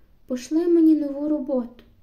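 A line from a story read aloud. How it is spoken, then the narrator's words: Desperate exclamation. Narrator (Ukrainian): вигукнула я відчайдушно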